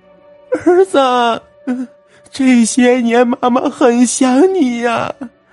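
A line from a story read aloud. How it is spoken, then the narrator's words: Wailing, crying loudly. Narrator (Chinese): 那中年妇女眼泪直流，嚎啕大哭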